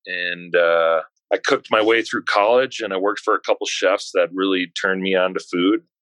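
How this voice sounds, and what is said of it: Faint Wisconsin accent. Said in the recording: “I can detect still some of the Wisconsin accent. ... It's faded. ... Some people can still hear it. ... the Wisconsin accent's not as strong as like the Minnesota one”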